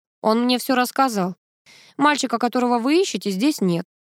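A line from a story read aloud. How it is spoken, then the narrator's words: Calm response. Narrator (Russian): спокойно отреагировал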